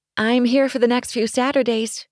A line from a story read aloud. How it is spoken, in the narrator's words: she called out